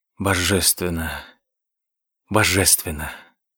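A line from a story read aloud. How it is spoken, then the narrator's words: Ecstatic exhale. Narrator (Russian): в экстазе выдохнул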